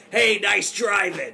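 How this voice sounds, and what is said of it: New York accent. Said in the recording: “he talks with the New York accent”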